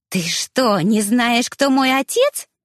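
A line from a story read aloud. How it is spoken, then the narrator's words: Sudden shriek. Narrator (Russian): взвизгнула вдруг Анжелика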